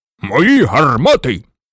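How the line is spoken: Loud. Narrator (Ukrainian): голосно почав

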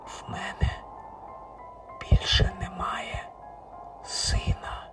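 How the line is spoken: Whispered. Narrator (Ukrainian): проказав пошепки Річард

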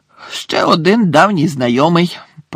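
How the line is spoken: Growled. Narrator (Ukrainian): прогарчав Муді

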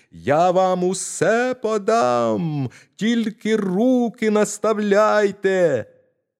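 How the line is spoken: Shouting at full voice. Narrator (Ukrainian): Та мізинчик знову закричав, скільки було голосу

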